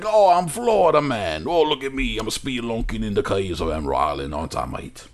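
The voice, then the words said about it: Joel Edgerton Australian-tinged Florida accent. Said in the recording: “Australian Joel Edgerton's like ... That accent work.”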